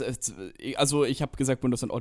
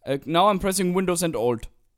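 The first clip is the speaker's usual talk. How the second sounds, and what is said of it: Put-on Indian accent in English. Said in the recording (German): “jetzt fange ich selbst schon an. Selbst den eigenen indischen ... Akzent.”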